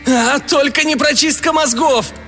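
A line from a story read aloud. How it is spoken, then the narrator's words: Howling. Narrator (Russian): взвылся камерник Ся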